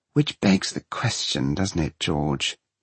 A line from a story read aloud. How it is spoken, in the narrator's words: he complains wearily